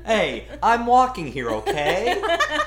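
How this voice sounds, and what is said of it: New York accent, Queens-style. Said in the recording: “you do a really great New York accent ... you sound like you're from Queens”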